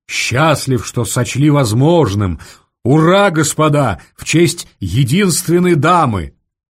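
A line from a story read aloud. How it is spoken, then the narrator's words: Deafening crowd shouting. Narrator (Russian): Все заорали столь оглушительно, что Варя испугалась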